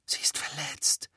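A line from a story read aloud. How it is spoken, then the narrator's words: Whisper. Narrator (German): flüsterte Harry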